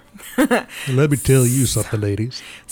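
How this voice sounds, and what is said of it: Pompous put-on voice. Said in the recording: “I'm trying to do a pompous voice.”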